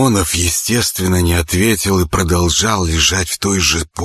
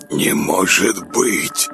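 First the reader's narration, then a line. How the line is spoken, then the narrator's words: Puzzled whisper. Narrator (Russian): озадаченно прошептал он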